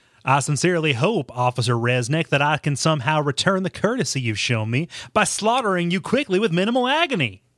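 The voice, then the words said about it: Villain character voice. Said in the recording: “I've never heard Carnage's voice. I'm just going to make my best my best impression... you're just a weird alien blood psycho”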